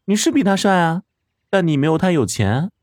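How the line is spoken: Laughing girl. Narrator (Chinese): 女孩笑了起来

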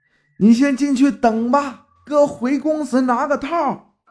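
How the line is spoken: Shouting while running. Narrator (Chinese): 我是边跑边喊

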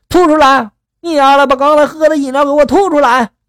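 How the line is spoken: Loud shouting. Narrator (Chinese): 犹太人大声的就喊了

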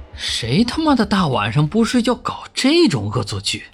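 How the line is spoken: Muttered. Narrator (Chinese): 老小虎自己嘟囔了一句

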